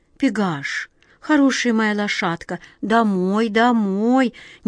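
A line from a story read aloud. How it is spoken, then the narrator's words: Quiet command. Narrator (Russian): негромко приказала глазастик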